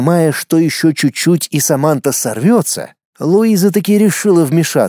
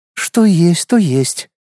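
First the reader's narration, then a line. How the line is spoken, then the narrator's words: Heavy sigh. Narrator (Russian): тяжело вздохнула Луиза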